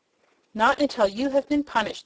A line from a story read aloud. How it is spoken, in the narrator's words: exclaimed the Boolooroo sternly